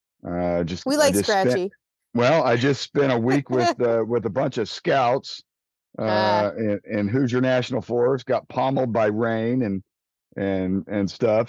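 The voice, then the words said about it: Scratchy, slightly hoarse voice. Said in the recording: “I'm a little under the weather today. So my voice is a little scratchy.”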